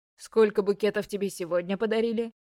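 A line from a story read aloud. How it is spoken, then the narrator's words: Plain. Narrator (Russian): спросил папа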